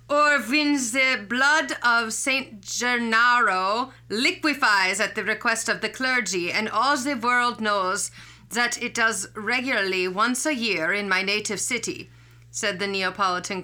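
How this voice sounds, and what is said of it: Put-on German accent, poorly done. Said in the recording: “you get to enjoy more of my German accent ... that accent sucked”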